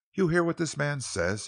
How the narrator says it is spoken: he exclaimed

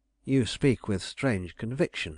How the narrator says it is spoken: I said

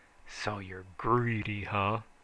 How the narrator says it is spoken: he snarled

